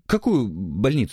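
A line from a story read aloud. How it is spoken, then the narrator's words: Babbling. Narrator (Russian): лепетал человек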